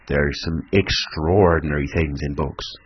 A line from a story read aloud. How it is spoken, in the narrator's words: said the mariner